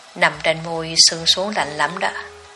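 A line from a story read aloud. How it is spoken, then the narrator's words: Smiling whisper. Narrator (Vietnamese): Mỉm cười trong bóng tối, Hiệu thì thầm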